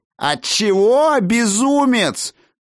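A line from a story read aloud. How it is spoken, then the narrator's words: Sudden yell of mage. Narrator (Russian): Вдруг завопил Шендар, один из магов Совета, подручный Мерлина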